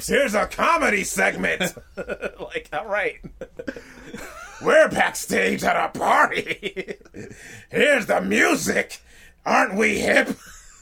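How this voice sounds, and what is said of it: Vince McMahon impression. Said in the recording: “that Vince impression”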